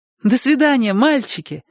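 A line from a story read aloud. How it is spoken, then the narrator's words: Cheerful, young woman. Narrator (Russian): радостно сказала девушка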